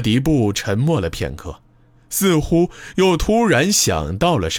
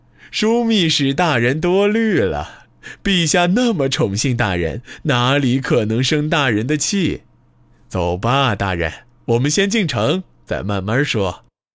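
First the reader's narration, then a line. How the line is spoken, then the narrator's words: Brief pause, then smiling. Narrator (Chinese): 呼兰宗望稍稍顿了顿，立刻笑着答道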